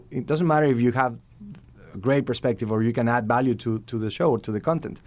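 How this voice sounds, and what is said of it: Mexican accent speaking English. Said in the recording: “I have as you can hear, a Mexican accent when I speak English”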